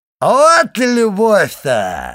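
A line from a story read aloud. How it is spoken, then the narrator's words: Drunken shout. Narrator (Russian): закричал Кадрус пьяным голосом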